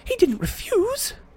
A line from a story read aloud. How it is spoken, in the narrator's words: gasped Hermione